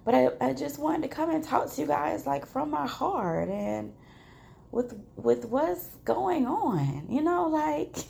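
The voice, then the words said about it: Slightly off voice, throat clearing. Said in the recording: “my voice is a little off. And I keep clearing my throat”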